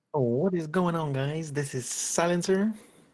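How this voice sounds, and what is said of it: Exaggerated YouTuber presenter voice. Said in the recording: “do my YouTube voice”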